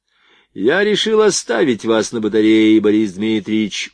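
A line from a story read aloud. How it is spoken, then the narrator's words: Deliberately loud. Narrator (Russian): умышленно громко проговорил Стольников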